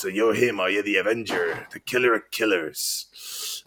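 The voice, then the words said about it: Raspy film villain voice impression. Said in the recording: “That's actually very good... he's got a kind of basic raspy voice... This is a pretty great voice, though”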